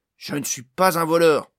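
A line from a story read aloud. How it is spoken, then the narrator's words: Loud voice. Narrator (French): dit Barn d'une voix forte cette fois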